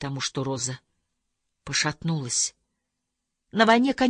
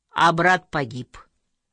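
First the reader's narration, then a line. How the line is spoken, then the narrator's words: Plain. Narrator (Russian): сказал Михаэль Хольцапфель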